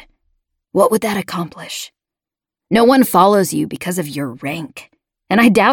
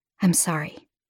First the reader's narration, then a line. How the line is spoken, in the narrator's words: I said softly